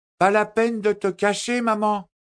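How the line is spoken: Little girl shouting. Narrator (French): cria la fillette

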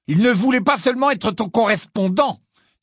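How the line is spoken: Accusing exclamation. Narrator (French): s'écria Ron d'un ton accusateur

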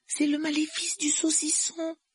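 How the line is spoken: Dismayed voice. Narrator (French): dit Hermione d'une voix navrée

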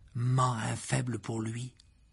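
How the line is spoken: Loud stage whisper. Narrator (French): dit Fred dans un murmure parfaitement audible pour tout le monde

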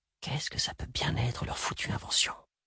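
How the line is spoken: Barely audible question. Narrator (French): Paul exploita un moment de tranquillité pour demander, d'une voix à peine audible

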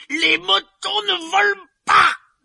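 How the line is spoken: Yelling man. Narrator (French): hurla-t-il

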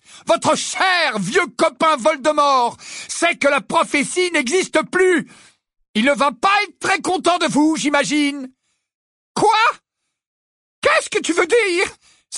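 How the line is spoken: Crying out. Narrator (French): s'écria-t-elle

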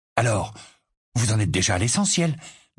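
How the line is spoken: Eager questioning tone. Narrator (French): demanda George d'un ton avide

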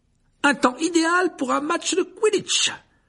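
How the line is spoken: Enthusiastic exclamation. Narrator (French): s'exclama Dubois avec enthousiasme

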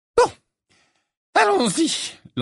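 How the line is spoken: Shrill, slightly hysterical voice. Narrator (French): lança le professeur Trelawney d'une voix aiguë et un peu hystérique

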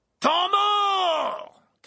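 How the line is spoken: Shouted. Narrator (French): cria la voix de Verpé

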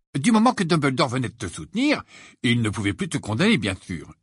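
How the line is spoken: Cheerful. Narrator (French): dit Ron d'un ton joyeux

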